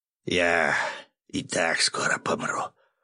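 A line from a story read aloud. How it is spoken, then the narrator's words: Old woman's hoarse wheeze. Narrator (Russian): снова прохрипела старуха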